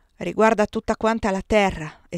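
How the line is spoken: Exclaimed. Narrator (Italian): esclamò Maurice

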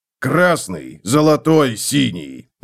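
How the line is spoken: Barked shout. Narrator (Russian): рявкнул Готрек

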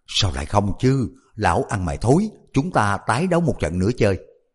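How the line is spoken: Loud reply. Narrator (Vietnamese): Âu Dương Phong lớn tiếng đáp

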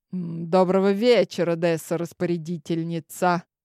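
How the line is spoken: Smirking, impressed snort. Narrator (Russian): Ухмыльнулся монарх хмыкнул, явно впечатленный моим образом

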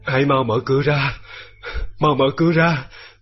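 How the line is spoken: Delirious old man moaning. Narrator (Vietnamese): khi cụ cố hôn mê, trong lúc mơ màng, ông thường rên rỉ gọi tên tôi và bảo

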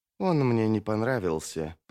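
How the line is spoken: Muttered undertone. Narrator (Russian): пробормотала Арди вполголоса

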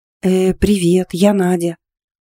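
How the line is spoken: Hesitant little girl. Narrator (Russian): неуверенно отозвалась девчушка за всех помолчавших

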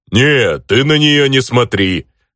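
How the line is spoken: Chuckling. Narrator (Russian): хохотнул Йохан

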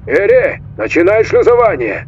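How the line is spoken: Nearly shouting. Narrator (Russian): почти закричал он

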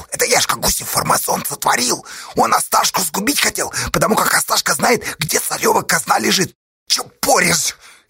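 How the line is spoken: Furious hiss. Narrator (Russian): яростно прошипел Осташа

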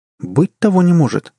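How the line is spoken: Exclaimed. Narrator (Russian): воскликнула она

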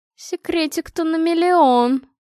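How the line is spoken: Drawn-out drawl. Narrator (Russian): протянула Анна

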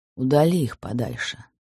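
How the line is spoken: Quiet reply. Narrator (Russian): так же тихо ответил Карнаухов

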